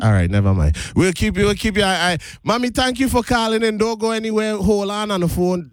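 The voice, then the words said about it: Strong regional accent coming through. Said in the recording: “Sorry, listeners. My accent come out.”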